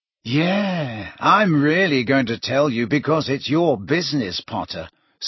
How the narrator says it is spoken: sneered Malfoy

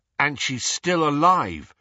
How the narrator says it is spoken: said Harry

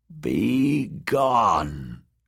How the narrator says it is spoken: croaked Maggie a third time

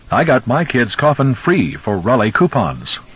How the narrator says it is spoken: In Lewis's mind, an announcer suddenly spoke up cheerfully

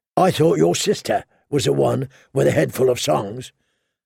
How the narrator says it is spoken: the hound growled

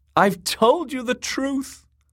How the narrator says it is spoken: the singer sobbed

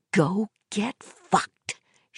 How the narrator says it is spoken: she whispered

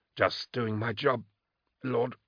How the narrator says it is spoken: he lisped

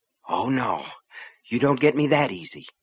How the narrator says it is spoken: she said under her breath

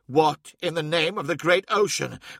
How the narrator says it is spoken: cried Hathor Mart

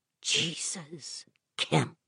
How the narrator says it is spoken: Vic whispered

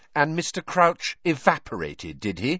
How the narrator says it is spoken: said Hermione coldly

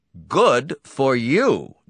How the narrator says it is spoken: Donati exclaimed

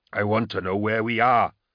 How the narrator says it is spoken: Angharad snarls

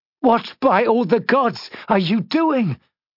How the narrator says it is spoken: cried

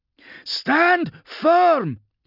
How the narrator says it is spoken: shouted

